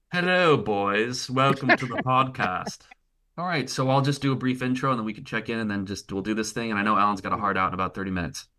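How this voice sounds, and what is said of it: Haughty put-on accent. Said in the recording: “I've been trying new accents, you know, the more haughty, the better.”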